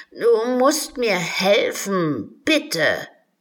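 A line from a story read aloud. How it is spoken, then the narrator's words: Wailing unicorn. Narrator (German): jammerte das Einhorn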